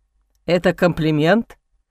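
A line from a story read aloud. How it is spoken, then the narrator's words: Angry grumble. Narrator (Russian): я сердито буркнула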